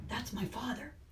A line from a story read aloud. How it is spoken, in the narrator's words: Jonas found himself whispering, as if he might wake the little ones if he spoke aloud